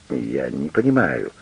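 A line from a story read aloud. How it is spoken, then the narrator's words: Mumbling. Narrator (Russian): пробормотала она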